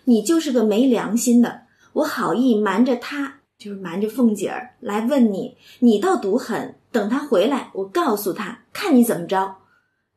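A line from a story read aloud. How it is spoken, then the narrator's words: Laughing. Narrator (Chinese): 那平儿就笑说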